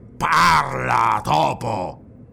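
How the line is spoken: Growled. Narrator (Italian): ringhiò

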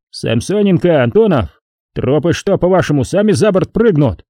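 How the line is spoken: Bark from above. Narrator (Russian): рявкнул сверху Рябошеев

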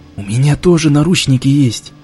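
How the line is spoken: Mumbled in a breaking voice. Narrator (Russian): Срывающимся голосом промямлил Димка

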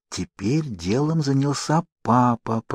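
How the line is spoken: Whisper. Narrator (Russian): прошептала Дженни

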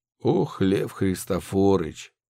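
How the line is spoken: Sigh. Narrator (Russian): вздохнул Удалов

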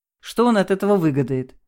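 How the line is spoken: Skeptical snort. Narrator (Russian): хмыкнул тот

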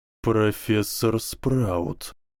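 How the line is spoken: Drawled. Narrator (Russian): протянул Зельевар

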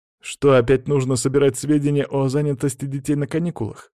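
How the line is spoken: Wry snort. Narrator (Russian): хмыкнул один из учителей

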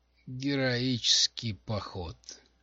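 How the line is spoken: Groan. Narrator (Russian): простонал Стиллер

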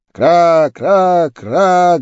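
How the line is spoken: Guttural cawing crows. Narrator (Russian): гортанно кричали вороны

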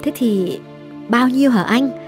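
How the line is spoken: Calm question. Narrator (Vietnamese): Hương điềm tĩnh hỏi

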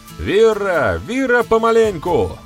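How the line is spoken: Shout. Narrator (Russian): крикнул Берамир

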